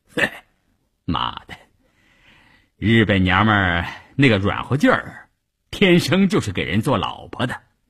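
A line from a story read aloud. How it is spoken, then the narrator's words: Laughing. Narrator (Chinese): 关山林笑着对一旁的三五九旅副旅长谭之林说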